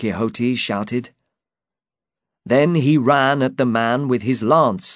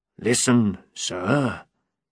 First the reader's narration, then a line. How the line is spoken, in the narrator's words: he said quietly